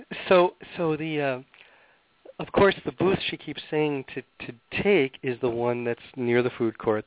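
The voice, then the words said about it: Slightly raspy voice. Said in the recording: “I have a little bit of a cold and I'm just a little raspy.”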